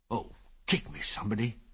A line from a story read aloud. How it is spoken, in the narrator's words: he said weakly